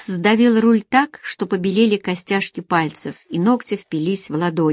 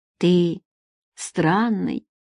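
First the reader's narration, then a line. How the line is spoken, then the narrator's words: Quiet, unexpectedly tender. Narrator (Russian): тихо, с неожиданной нежностью промолвила Надежда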